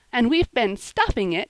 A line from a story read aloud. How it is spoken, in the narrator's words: cried Polly merrily